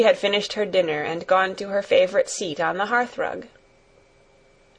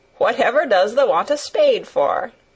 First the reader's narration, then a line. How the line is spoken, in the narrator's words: asked Martha, laughing